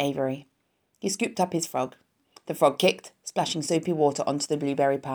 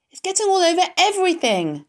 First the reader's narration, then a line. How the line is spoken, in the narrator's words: shouted Fern